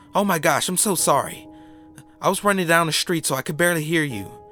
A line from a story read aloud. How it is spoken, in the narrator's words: she cried